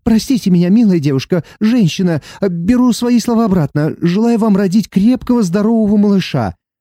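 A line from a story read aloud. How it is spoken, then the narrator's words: Frightened man pleading. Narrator (Russian): Испуганный мужчина взмолился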